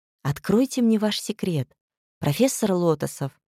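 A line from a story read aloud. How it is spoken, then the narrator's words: Tender whisper. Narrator (Russian): Нежным голоском прошептала она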